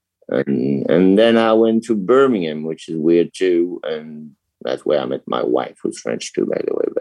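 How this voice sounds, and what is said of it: Mixed French, Northern English, Canadian accent. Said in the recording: “my accent is totally fucked up. Makes a French and Northern England and Canadian”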